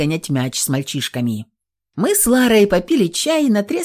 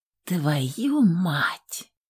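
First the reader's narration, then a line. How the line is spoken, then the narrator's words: Quiet exhaled curse. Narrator (Russian): Тихо выдыхаю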